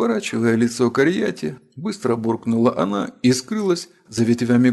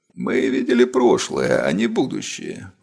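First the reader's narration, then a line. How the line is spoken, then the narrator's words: Grumble. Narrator (Russian): проворчала повелительница фей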